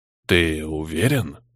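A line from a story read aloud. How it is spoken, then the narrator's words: Very quiet question. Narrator (Russian): очень тихо спросил Барага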